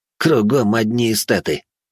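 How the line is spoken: Grumbling. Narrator (Russian): проворчал Славян

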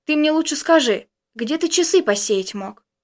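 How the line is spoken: Sighing. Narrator (Russian): вздохнул Костя

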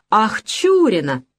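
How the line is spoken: Exclaimed. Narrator (Russian): воскликнул я

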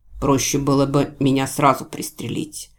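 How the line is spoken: Said quietly. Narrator (Russian): тихо сказал он

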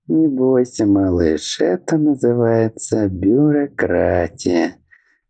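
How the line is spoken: Chuckling. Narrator (Russian): хохотнул Аубран

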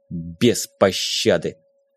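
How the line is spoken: Through gritted teeth. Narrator (Russian): процедил сквозь зубы Арсений

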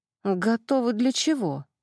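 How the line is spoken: Timid squeak from afar. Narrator (Russian): робко пискнул кто-то с дальнего ряда

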